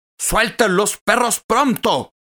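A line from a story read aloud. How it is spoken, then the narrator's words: Animal tamer shouting. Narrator (Spanish): gritó el domador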